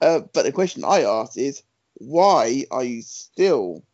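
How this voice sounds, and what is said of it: Usual voice. Nothing is said of it.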